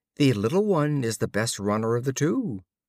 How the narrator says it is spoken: A goatherd mocked him, saying

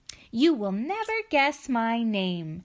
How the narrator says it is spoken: the little man just laughed and said

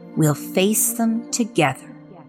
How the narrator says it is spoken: they said quietly, in a voice that brooked no arguments

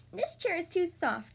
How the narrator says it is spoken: cried

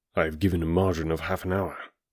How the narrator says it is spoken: said he

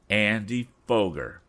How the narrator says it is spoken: cried the young inventor

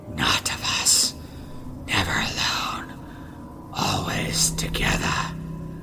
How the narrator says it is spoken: hissing

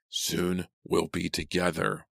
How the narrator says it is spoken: the voice rasped

